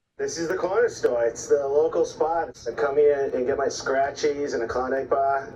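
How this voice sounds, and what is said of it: Fake Boston accent, dropped R's. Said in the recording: “Why were you dropping? Why are you putting your R? ... Why were you you Bostoning up your R's? ... I got a fake Boston accent. ... it's pretty good. ... I Bostonied it up ... everyone who heard it immediately shit on my Boston accent, said it was bad.”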